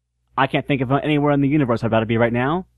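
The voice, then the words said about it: Imitates another person's voice. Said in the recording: “I'm doing your voice again.”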